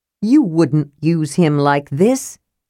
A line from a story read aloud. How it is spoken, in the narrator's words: Caramon growled